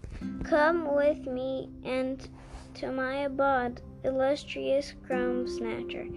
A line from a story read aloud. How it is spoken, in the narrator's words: he said